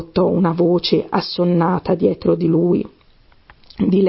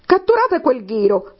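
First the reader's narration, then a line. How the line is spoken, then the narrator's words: Queen shrieking. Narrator (Italian): strillò la regina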